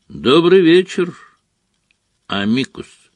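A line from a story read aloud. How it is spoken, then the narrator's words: Calm, casual greeting. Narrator (Russian): спокойно произнес Дамблдор, словно приветствуя гостя, явившегося на чашку чая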